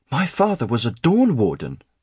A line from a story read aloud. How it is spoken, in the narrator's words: Aaron blurted